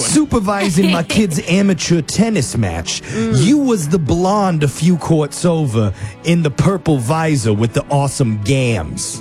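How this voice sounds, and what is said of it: Put-on New York accent. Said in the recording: “I feel like this guy's a New York accent ... I didn't know that was the New York accent”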